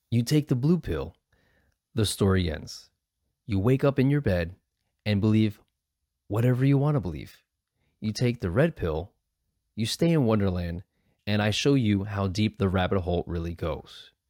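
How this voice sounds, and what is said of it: Dramatic movie trailer voice. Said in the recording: “my Morpheus voice ... I know I don't sound like Morpheus, but I just kind of defaulted to my quote slash movie trailer voice”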